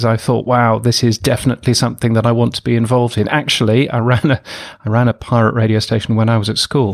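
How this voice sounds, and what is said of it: British accent, northern English. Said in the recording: “I'm a Brit, as you can tell from this ridiculous accent ... I grew up in England, in the north of England mostly”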